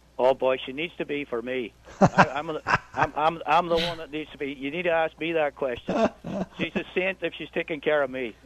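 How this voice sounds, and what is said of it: Irish brogue. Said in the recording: “It's a pleasure to hear that Irish brogue. I love it so much.”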